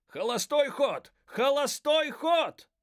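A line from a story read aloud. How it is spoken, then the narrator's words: Alarmed shout. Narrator (Russian): крикнул встревоженный мистер Гарсия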